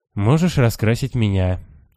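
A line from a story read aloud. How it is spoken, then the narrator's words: Glum, dejected. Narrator (Russian): уныло предлагает курильщик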